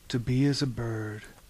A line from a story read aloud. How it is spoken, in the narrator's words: he sighed